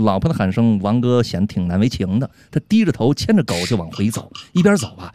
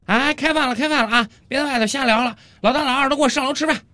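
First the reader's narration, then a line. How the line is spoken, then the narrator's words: Loud call downstairs. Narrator (Chinese): 王哥的老婆 冲着楼下的王哥大声喊道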